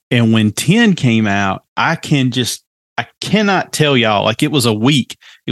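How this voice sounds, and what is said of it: Southern US accent. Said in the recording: “by my accent, I grew up in the South”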